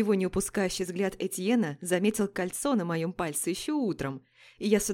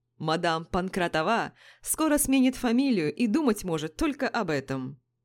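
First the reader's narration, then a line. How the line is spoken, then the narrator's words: Laughing. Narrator (Russian): Засмеялся Жак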